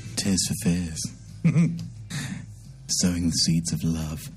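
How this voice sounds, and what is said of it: DJ-style radio presenter voice. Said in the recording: “That's my DJ voice, because I'm on the radio.”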